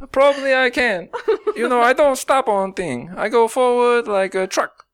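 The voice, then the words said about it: Put-on accent. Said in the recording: “this accent”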